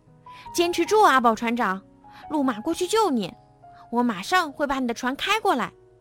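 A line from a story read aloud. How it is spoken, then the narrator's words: Calling out. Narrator (Chinese): 莱德叫道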